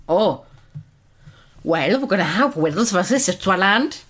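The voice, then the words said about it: Attempted Welsh accent. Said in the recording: “Was that attempted a Wales accent?”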